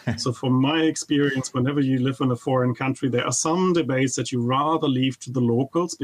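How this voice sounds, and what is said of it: German accent. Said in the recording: “since you mentioned I come from Germany, and of course you could never tell from my accent”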